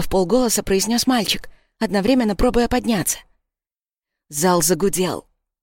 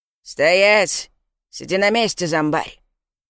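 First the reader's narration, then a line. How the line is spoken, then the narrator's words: Deep bass voice. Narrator (Russian): пробасил охранник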